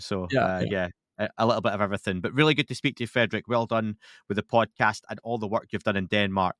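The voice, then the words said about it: Scottish accent. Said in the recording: “help people understand me a little bit better with the Scottish accent”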